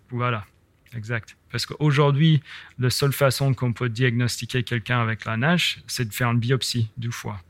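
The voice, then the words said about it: Very slight American accent in French. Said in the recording (French): “on l'entend à ton très léger accent. Toi, tu es américain”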